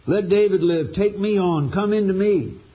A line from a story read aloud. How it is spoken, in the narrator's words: Desperate to save David's life, Arnie cried out